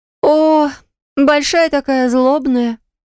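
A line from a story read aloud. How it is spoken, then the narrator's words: Moaning. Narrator (Russian): простонала Марина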